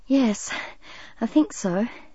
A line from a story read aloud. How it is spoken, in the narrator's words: she answered with a shaky laugh